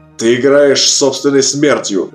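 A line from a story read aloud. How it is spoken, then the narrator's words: Growling. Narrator (Russian): зарычал сержант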